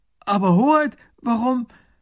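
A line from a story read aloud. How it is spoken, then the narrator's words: Minister calling out. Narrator (German): Der erste Minister ruft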